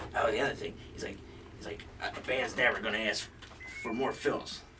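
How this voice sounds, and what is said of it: Imitates another person's voice. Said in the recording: “That's a good Mike impersonation, I guess. That's a good impersonation.”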